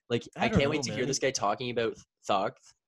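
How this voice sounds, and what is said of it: Imitates another person's voice, lisping. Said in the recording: “That's a pretty good impression.”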